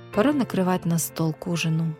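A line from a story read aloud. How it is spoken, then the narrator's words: Sighing. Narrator (Russian): вздохнула она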